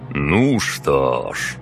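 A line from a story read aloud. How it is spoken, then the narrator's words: Mage's grunt. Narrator (Russian): хмыкнул маг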